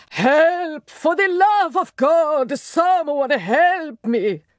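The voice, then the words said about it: Shouted, melodramatic deep aristocratic voice. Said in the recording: “shouted a man's voice in tones aristocratic, melodramatic, indeed nearly operatic, not in keeping with British restraint at all ... Did I not discern a foreign accent in his deep voice?”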